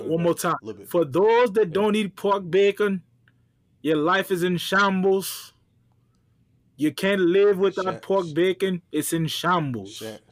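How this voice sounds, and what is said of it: Put-on accent. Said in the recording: “Whatever that accent came from”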